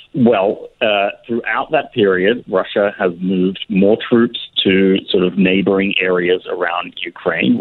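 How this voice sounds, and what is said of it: Australian accent. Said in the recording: “there's that Australian accent. It's so wonderful.”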